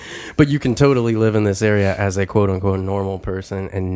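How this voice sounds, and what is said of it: Usual voice. Nothing is said of it.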